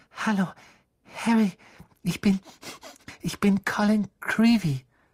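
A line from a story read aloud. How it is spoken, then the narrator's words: Breathless. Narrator (German): sagte er atemlos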